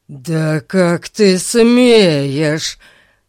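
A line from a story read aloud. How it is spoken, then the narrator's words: Growled. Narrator (Russian): зарычал он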